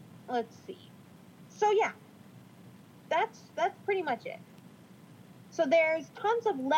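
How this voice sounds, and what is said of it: Usual voice. Nothing is said of it.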